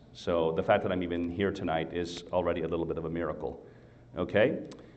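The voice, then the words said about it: Slightly uneven, recovering voice. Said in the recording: “my voice is a little uneven this evening ... I'm just getting over sinus infection and bronchitis. Up to yesterday, I didn't have a voice.”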